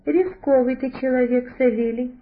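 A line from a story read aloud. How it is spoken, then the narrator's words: Relieved sigh. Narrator (Russian): облегченно вздохнул он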